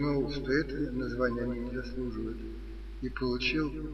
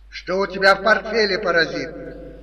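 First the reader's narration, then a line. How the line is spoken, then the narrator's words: Shrill cat-like shout. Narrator (Russian): пронзительно прокричал, похожий на кота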